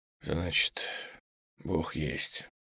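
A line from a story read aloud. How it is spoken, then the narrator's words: Smirking whisper. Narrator (Russian): Крутов ухмыльнулся и прошептал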